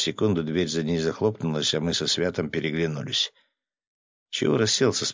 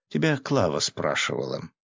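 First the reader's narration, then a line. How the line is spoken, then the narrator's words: Snide remark. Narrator (Russian): ехидно заметила Катя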